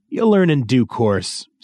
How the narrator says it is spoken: said Angmark

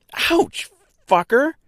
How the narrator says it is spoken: cried

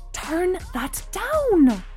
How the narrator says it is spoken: I heard Gemma hiss

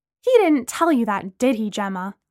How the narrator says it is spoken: Lana asked angrily

